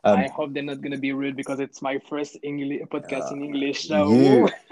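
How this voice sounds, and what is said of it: French-accented English. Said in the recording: “The French accent sounds sexy”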